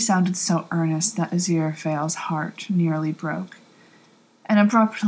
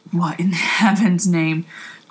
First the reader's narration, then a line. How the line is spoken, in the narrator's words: Crowley exclaimed